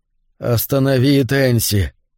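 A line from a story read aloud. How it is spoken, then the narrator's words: Strained. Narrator (Russian): выдавил Норман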